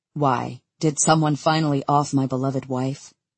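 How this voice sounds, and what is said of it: Dry, deadpan delivery. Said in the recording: “in a dry voice”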